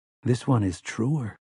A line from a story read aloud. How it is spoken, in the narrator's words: whispered another, even deeper